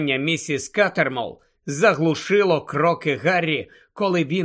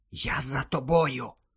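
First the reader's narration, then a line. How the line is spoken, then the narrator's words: Whispered in ear. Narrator (Ukrainian): прошепотів він на вухо Герміоні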